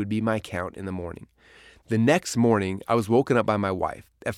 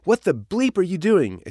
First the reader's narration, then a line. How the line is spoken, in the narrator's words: exclaimed the stranger on the other line